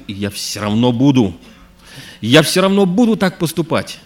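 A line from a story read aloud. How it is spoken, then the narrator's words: Shouting. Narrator (Russian): А мой брат кричал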